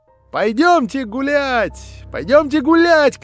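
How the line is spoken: Shouting. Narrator (Russian): кричала Аделаида

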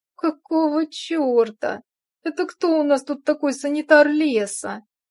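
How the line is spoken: Muffled groan. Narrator (Russian): Простонала я, натягивая подушку на голову

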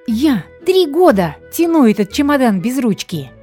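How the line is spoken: Nervous small woman yelling. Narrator (Russian): Нервно вопила невысокая, худенькая, чернявенькая женщина

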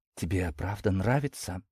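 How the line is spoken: Timid question. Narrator (Russian): переспросила робко Настя

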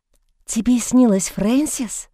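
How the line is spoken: Quiet. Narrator (Russian): тихо произнесла она

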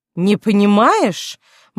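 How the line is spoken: Nearly shouted. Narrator (Russian): Маргарет почти выкрикнула это слово, и оно эхом отозвалось в просторной столовой

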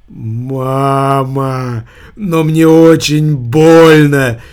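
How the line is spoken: Loud sobbing. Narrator (Russian): Верзила зарыдал в голос

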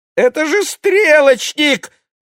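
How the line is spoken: Terrified squeak. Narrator (Russian): в ужасе пискнул Владик

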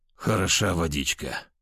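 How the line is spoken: Groaned. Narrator (Russian): простонал я

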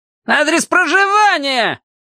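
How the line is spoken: Shouted again. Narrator (Russian): опять прокричал штабс-прапорщик

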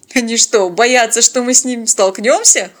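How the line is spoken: Chuckling. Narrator (Russian): хохотнул Теодор

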